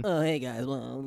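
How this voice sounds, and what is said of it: Frail, soft, gentle imitated voice. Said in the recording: “BWK's soft, gentle voice ... your BWK impression ... He sounds so frail.”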